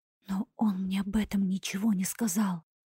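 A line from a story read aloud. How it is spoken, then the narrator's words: Terrified whisper. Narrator (Russian): в ужасе прошептала я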